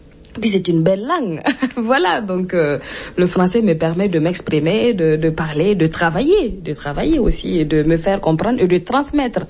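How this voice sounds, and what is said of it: Burkinabé accent in French. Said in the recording (French): “j'ai peut-être un accent ou une particularité avec la langue française. C'est mon accent aussi ... les autres disaient que je ne parlais pas la bonne langue, ni le bon accent ... On reconnaît pas mon visage, mais mon accent”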